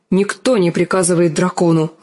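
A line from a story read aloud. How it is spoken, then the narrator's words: Snapping retort. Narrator (Russian): огрызнулся Визерис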